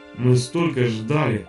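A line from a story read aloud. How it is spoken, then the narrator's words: Dying sigh. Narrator (Russian): вздохнул и умер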